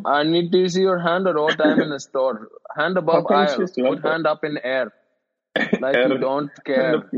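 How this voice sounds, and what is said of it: Put-on Indian accent. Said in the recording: “That was a pretty good Indian accent.”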